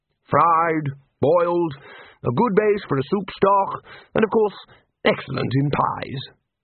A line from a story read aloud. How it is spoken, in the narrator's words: said the Arch-Chancellor happily